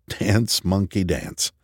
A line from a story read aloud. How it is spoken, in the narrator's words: laughed softly and muttered